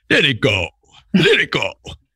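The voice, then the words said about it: Wim Hof impression. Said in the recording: “Have we seen Wim Hof ... That's a great impression.”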